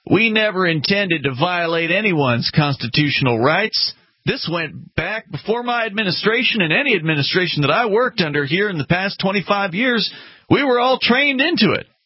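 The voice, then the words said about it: Put-on redneck Southern accent. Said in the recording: “Is that your Cajun accent? ... Sounds more like a redneck accent.”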